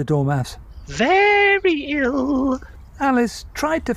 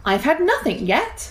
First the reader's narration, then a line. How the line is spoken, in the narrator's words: Alice replied in an offended tone